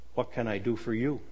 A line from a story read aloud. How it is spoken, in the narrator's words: In a soft but firm voice, asked